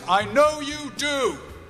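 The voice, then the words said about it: Loud shouted line. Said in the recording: “in a loud voice”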